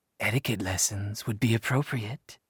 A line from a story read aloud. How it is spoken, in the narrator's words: she replied in a husky voice